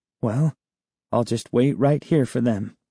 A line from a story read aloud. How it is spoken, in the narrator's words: I murmured to myself